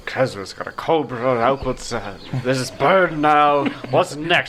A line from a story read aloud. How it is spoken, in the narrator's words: Adelar mumble